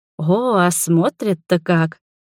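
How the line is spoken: Completely calm. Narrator (Russian): Рада совершенно спокойно

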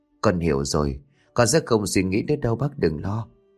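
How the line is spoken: Soft intimate murmur. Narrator (Vietnamese): Cô thủ thỉ

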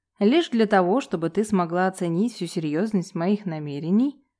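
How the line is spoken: Short laugh. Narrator (Russian): хохотнул Василий

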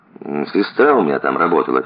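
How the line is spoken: Quiet. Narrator (Russian): тихо сказал Никита

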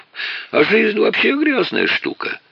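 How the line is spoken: Laughing. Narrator (Russian): снова засмеялся хозяин квартиры

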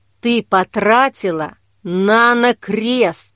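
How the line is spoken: Quiet but menacing bark. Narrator (Russian): Тихо, но все же грозно умудрился рявкнуть Лука

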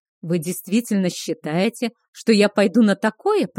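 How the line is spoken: Growled. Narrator (Russian): прорычал Кейхар

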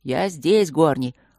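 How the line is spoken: Mocking call from above. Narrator (Russian): ответил он из ветвей насмешливо

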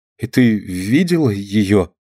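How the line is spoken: Stammering question. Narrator (Russian): заикаясь, спросила Алина

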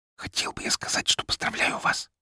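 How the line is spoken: Whisper. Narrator (Russian): прошептал ей

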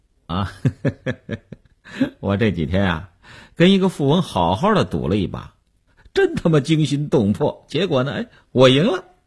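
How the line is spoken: Laughing. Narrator (Chinese): 刘文庆笑笑说

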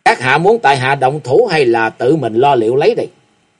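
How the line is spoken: Icy cold voice. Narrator (Vietnamese): với giọng lưỡi lạnh như băng nói

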